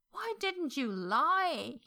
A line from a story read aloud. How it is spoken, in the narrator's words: He wailed into Xiang Chang's glowering face